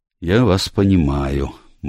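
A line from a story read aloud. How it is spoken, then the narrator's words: Grim. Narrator (Russian): мрачно произнес Пайковый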